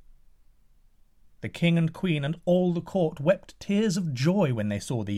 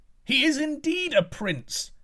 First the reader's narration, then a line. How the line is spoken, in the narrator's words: cried the people of the court